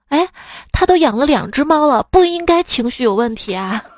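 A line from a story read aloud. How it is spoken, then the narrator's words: Sighing, heavy-hearted. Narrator (Chinese): 我爸唉声叹气的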